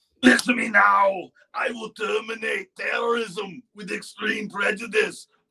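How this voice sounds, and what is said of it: Arnold Schwarzenegger impression. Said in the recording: “My comedy thing was a lot of impersonations ... Schwarzenegger ... That's right, Arnold.”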